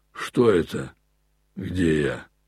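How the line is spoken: Mumbled. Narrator (Russian): пробормотал он

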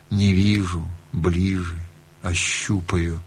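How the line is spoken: Barely audible, father. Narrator (Russian): Отец выговорил чуть слышно

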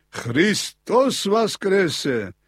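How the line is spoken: Exclaimed. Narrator (Russian): воскликнул он

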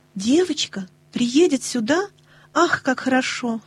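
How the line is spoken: Excited exclamation. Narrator (Russian): воскликнула Нэнси

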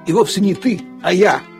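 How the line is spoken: Grumble. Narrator (Russian): проворчал Лассе

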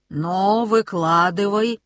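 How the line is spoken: Grumbling. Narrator (Russian): проворчал он

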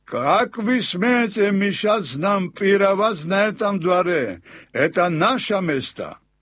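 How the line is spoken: Drunken men shouting threats. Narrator (Russian): Несколько пьяных мужчин требовали, грозились и кричали

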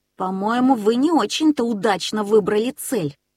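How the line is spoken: Angry. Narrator (Russian): сердито сказал Нильс

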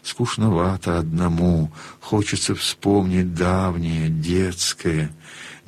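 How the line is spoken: Muffled whisper. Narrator (Russian): он глухим шепотом выговорил

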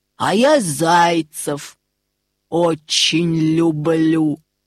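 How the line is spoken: Growling wolf. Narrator (Russian): зарычал волк

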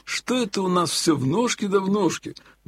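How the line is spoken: Sudden grumble. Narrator (Russian): вдруг пробурчал Елагин

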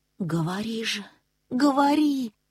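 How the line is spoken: Deadened whisper. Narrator (Russian): помертвевшим голосом прошептал Нильс

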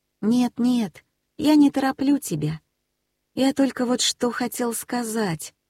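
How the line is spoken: Timid speech. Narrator (Russian): робко проговорил

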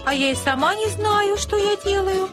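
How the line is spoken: Plain. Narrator (Russian): ответила Анна

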